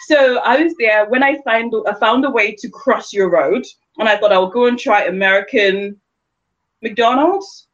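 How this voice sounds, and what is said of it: London accent. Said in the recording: “So where's your accent from?" And I go, "London.”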